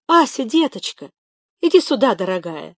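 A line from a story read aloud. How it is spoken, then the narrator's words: Joyful exclamation. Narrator (Russian): воскликнула Зинаида Глебовна, увидев племянницу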